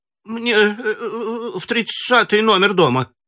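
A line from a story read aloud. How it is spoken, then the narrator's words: Frightened woman. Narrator (Russian): испуганно сказала женщина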